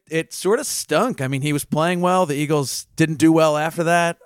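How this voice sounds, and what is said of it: Put-on Philadelphia accent, sports-radio caller. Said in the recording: “Do you want me to do a Philly accent while I do the rest of it? ... Like a WIP sports caller?”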